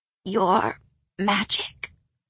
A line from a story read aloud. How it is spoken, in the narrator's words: rasped